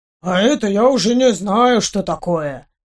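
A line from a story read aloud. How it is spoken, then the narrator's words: Mustached man mumbling. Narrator (Russian): пробормотал усатый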